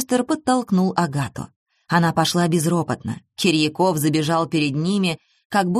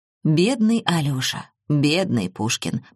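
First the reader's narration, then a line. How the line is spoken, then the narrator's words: Muttering. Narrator (Russian): пробормотал он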